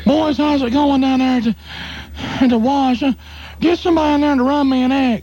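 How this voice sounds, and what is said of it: Imitates another person's voice. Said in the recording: “my impression of the boss and the owner”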